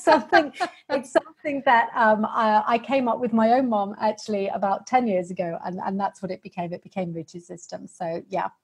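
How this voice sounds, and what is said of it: British accent. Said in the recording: “the accent has probably given away that I'm a Brit”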